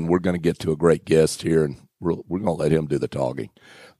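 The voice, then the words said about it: Slightly hoarse voice. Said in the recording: “I've got a little frog in my throat, getting over a little cold”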